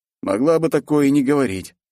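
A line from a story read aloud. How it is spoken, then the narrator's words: Snorting. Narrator (Russian): хмыкнул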